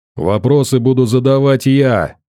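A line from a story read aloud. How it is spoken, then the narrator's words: Barking. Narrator (Russian): рявкнул Гром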